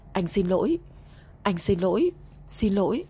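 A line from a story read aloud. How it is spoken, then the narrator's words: Trembling voice. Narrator (Vietnamese): cất giọng run run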